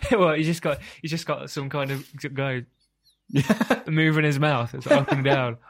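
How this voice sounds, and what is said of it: Usual voice. Nothing is said of it.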